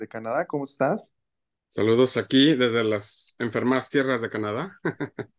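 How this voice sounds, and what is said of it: Unusually deep voice, sore throat. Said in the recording (Spanish): “¿cómo sigue esa garganta? ... Seguimos con, la voz, seguimos con la voz de hombre”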